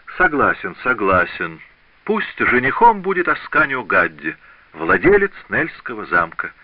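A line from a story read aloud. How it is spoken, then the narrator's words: Laughing king exclaiming. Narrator (Russian): от души смеясь, воскликнул король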